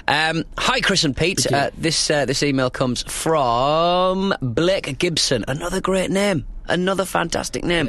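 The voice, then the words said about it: Fast northern English accent. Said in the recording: “my speedy northern brogue? Because I've had two coffees”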